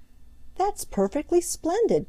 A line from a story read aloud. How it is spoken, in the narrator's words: cried Peter